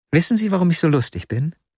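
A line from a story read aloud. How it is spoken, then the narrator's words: Plain. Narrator (German): fragte sie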